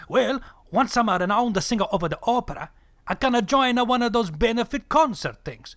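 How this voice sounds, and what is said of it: Exaggerated put-on Italian accent. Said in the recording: “I'm a grande Italiana guy ... this ridiculous accent”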